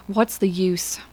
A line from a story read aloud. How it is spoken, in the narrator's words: he breathed